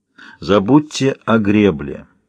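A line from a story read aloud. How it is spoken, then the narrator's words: Slow speech. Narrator (Russian): медленно говорит Шеско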